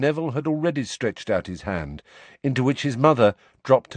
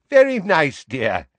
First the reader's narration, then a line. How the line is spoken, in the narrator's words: said Neville's grandmother in a falsely cheery voice